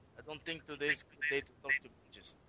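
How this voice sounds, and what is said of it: Put-on Russian accent, hard to understand. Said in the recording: “Knock off the Russian accent because I couldn't understand you.”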